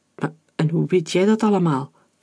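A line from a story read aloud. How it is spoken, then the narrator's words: Stammering. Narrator (Dutch): stamelde Hector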